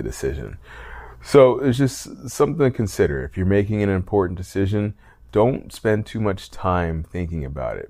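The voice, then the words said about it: Tired-sounding voice. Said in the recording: “As you can probably tell in my voice, I'm a little tired.”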